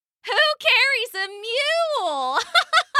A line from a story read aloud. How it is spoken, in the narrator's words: they shouted, barely getting it out between giggles